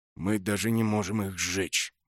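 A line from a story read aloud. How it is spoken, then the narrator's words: Grim. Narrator (Russian): мрачно закончил Броуд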